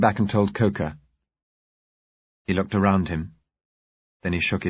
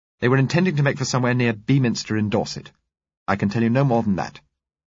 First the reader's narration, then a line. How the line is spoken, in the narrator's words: she said curtly